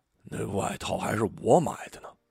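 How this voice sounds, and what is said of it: Quiet muttering under breath. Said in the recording (Chinese): “嘴里小声嘀咕着什么”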